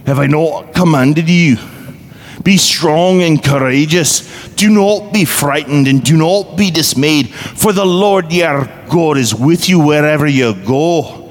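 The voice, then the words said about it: Put-on accent reciting scripture. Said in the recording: “let's do it in an accent. So I can't read Joshua 1:9 in my own voice. I have to do it in the accent with which we practiced it.”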